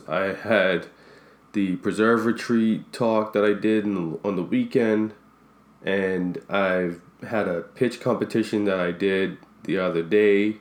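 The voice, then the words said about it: Sick, strained-sounding voice. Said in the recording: “You can hear from my voice. I was sick for a bit”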